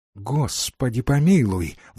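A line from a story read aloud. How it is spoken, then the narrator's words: Exclaiming. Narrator (Russian): воскликнул он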